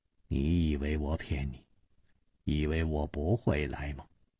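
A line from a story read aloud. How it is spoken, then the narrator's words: Muttering. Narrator (Chinese): 梁妈嘟囔着说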